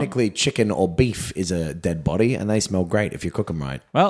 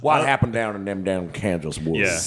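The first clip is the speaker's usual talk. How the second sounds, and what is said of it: Put-on Southern American accent. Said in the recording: “Prep your accent... I don't know what a Kansan sounds like... we can just do Southern”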